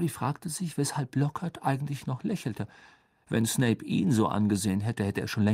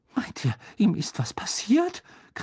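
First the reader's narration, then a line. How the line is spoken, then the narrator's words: Muffled shriek. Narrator (German): kreischte sie durch die Finger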